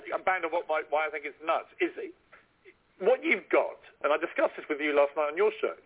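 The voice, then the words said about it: Put-on posh accent. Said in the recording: “my best posh accent”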